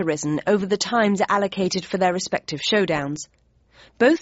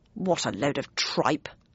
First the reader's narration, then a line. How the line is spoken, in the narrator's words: muttered Bradshaw